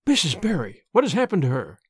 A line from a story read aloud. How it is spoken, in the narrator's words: she gasped, more white and shaken than the self-contained, sensible Marilla had been for many years